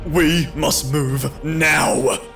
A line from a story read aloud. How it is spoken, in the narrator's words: Timothy barked into my ear